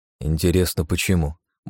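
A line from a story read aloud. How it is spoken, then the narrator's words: Grumble. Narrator (Russian): буркнул я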